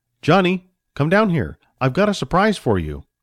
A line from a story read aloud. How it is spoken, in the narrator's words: the man called out